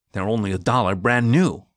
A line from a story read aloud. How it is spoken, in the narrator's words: he grumbled